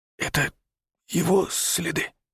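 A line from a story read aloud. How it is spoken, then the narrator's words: Whispered. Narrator (Russian): шепнул Павел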